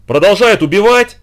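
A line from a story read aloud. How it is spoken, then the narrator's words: Shouting. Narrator (Russian): заорал генерал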